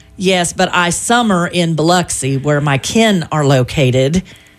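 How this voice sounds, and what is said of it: Put-on southern accent. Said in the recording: “Where does this southern accent ... it comes out of me when we start talking about the southern”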